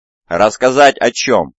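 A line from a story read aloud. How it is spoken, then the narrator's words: Unaware loud roar. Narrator (Russian): взревел Вайросиан, не сознавая, насколько громко звучит его голос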